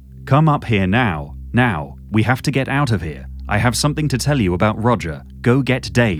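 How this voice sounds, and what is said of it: Robotic text-message voice. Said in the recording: “text voice ... I had a sort of robotic text voice”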